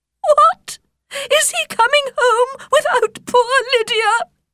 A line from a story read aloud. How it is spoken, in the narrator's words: she cried